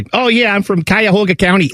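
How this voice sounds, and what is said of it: Put-on Cleveland suburban accent. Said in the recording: “up in Cleveland where everything's like ... You know that's how they talk ... in the suburban neighborhoods of Cleveland, that's what they sound like”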